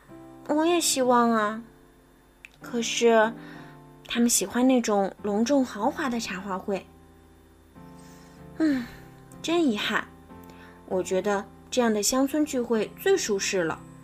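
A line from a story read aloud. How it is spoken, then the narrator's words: Sighing. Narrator (Chinese): 苏菲亚忍不住叹了口气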